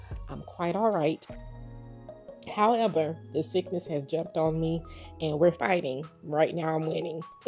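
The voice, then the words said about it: Raspy, congested voice. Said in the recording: “I'm a little raspy and a little congested. I'm getting over the flu and a little bout with pneumonia.”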